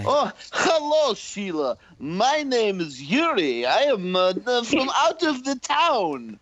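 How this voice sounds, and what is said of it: Speaks with a put-on accent. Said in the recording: “I love your accent. Where are you from, Georgia?”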